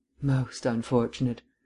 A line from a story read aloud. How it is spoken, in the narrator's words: breathed Vance